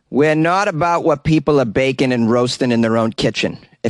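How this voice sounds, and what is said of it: Put-on Boston accent. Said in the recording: “I can't do a Dutch accent, so I'm going to do a Boston accent.”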